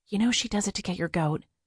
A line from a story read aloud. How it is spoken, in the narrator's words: Haley Wyatt leaned in and whispered